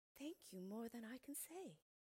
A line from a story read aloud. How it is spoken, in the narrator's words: breathed the grateful woman